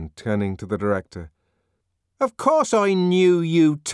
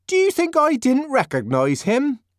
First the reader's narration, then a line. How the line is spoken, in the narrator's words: Linda asked indignantly